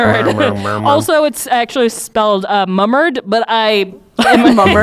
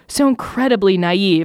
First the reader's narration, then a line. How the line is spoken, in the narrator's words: Ultron murmured